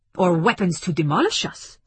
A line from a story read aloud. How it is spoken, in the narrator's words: snapped Zakheim